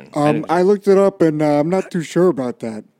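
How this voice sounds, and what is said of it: Sluggish, heavily sedated-sounding imitation. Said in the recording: “good Garrett impression ... It sounds like him if he was like on fentanyl ... if you gave him the most powerful narcotic on earth”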